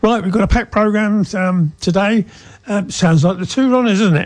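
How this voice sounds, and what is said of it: Southern English twang. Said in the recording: “from down south. Haven't lost the twang, have I? No, not at all.”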